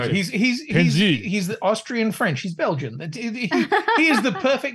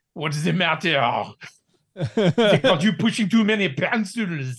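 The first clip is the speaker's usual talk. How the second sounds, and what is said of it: Deliberately bad mock French accent. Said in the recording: “doing a French accent”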